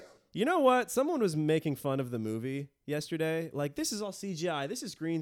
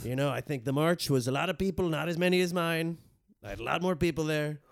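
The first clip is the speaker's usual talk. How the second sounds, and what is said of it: Imitates another person's voice. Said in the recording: “If you criticize my impressions, it's the one thing I have. It was Trump, obviously.”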